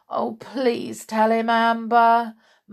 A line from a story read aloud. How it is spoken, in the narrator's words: moaned George